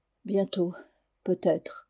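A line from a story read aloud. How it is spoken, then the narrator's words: Sad. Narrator (French): dit-elle tristement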